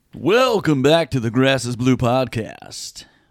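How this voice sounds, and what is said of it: Radio DJ announcer voice. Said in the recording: “Is that your radio voice? ... DJ voice.”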